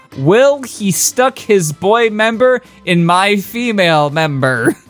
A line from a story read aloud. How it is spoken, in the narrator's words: I moaned happily